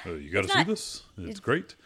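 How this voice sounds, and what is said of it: Imitates another person's voice. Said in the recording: “my Obama impression”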